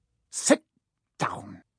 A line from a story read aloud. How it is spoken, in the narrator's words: he snapped at Hermione